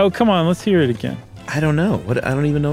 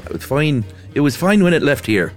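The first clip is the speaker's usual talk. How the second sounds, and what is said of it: Put-on Irish accent. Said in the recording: “I was gonna do it in an Irish accent”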